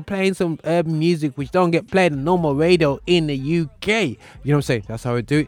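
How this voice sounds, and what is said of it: Put-on urban accent, poorly done. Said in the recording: “my terrible trying to be universal urban accent”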